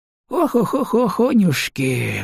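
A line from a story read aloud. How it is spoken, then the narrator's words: Sighing. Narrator (Russian): вздохнул Пупень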